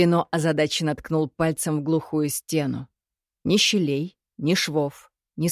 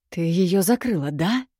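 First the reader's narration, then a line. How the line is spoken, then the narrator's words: Hissing exhale. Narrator (Russian): Свистяще выдохнул Кирино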